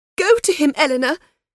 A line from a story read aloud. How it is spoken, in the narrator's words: she cried as soon as she could speak